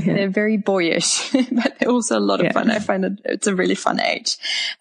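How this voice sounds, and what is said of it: Slight German accent. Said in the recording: “if you can detect a little bit of an accent, I'm originally from Germany”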